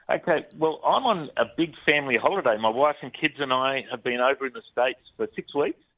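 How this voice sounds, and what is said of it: Australian accent. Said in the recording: “we love that Australian accent”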